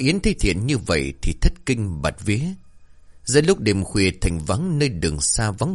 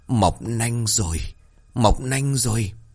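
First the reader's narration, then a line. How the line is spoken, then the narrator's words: Through gritted teeth, harsh, repeating. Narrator (Vietnamese): Thiện còn nghiến răng liên tục, gằn giọng nhắc đi nhắc lại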